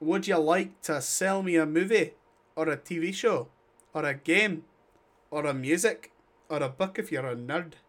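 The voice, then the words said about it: Put-on Scottish accent, pirate-like. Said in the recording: “What was that accent? I couldn't tell if it was Irish, Scottish, or other stuff. ... it was Scottish ... You sound like a weird pirate.”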